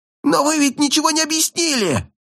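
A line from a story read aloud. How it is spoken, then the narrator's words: Shrieking. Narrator (Russian): Кто-то буквально визжал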